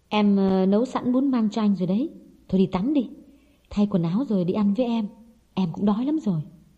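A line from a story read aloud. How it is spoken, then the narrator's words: Soft and gentle. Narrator (Vietnamese): Hồng nhỏ nhẹ nói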